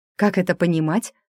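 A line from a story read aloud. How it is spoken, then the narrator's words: Gloomy, angry question. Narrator (Russian): мрачно уточнила я, злясь уже не на некроманта, а на себя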